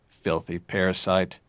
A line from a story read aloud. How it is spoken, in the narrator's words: he muttered